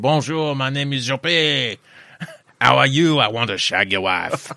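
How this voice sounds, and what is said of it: Put-on French accent. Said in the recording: “I've got one French accent that I do, and I'm quite happy with that.”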